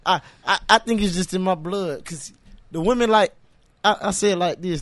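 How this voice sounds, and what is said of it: Country Southern slang accent. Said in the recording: “they like the way I talk. They like my little country slang with a little accent”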